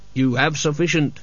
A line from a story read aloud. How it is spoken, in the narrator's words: said Death coldly